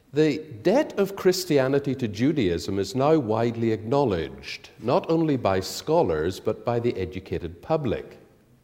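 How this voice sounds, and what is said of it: Irish-accented English. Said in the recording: “I speak Irish English, so this may cause some problems to those who are used to standard BBC English.”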